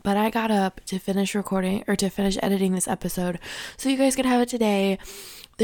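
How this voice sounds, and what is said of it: Raspy, hoarse voice. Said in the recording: “I know my voice sounds raspy. That's because it's 5:30 in the morning. And my allergies are still, like, high going.”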